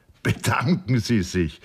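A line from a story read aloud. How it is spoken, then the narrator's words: Laughing. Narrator (German): lachte der Oberst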